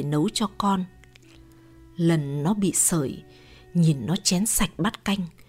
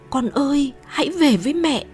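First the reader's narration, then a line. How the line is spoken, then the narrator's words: Screaming. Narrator (Vietnamese): Thét lên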